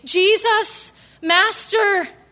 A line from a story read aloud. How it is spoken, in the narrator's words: called out